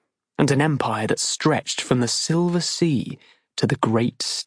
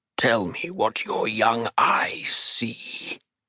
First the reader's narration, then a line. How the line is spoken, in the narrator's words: Leonid said, in the half-croak Jai had come to know so well